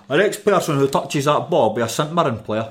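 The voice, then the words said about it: Put-on Fife Scottish accent. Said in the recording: “kudos on the Fife accent. Or the Fife noise.”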